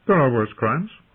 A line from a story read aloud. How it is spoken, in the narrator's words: Renly said with a laugh